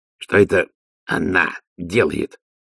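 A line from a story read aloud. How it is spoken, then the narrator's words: Forced out, strained. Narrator (Russian): выдавил из себя Ди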